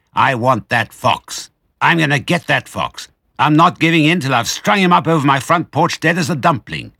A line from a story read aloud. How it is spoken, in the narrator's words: he said angrily